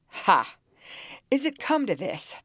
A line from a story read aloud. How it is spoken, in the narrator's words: thundered the stranger